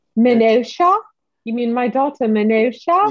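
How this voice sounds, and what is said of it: Put-on character accent. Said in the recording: “There's the accent. ... can't quite do it.”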